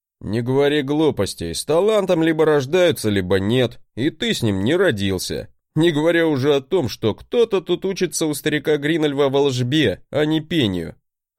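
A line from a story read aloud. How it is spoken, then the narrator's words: Laughing. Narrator (Russian): хохотнул он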